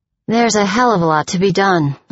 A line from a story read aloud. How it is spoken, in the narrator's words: I sighed